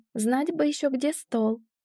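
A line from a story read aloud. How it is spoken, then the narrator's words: Laughing. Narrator (Russian): рассмеялась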